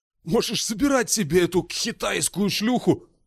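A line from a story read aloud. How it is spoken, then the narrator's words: Said hoarsely. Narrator (Russian): хрипло сказал он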